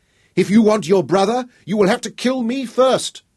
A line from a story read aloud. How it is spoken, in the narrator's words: she shrieked at Guy